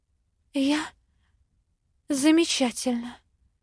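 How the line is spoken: Breathed out through dry lips. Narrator (Russian): Выдохнула пересохшими губами

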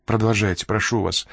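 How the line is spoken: Quiet. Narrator (Russian): тихо сказала Энн

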